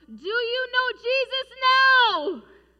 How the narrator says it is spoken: John Harper called out

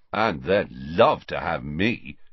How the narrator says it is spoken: said Harry sarcastically

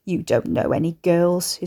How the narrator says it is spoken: his father scoffed

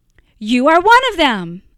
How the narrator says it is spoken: another one at the fire called out

